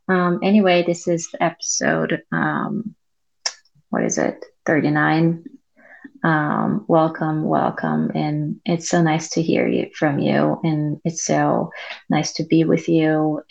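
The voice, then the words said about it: Low, quiet voice. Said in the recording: “my voice is kind of low”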